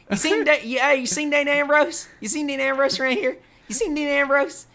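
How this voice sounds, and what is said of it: Thick Southern accent impression of Jamie Noble. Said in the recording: “Jamie Noble in his thick Southern accent. ... His little voice.”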